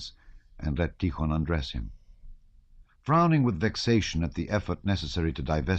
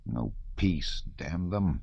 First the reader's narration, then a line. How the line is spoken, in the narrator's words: he muttered, angry he knew not with whom